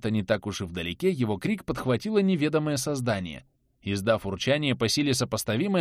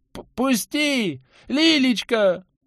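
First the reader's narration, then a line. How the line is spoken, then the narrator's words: Frantic loud scream. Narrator (Russian): Не своим голосом на всю округу заорал Антон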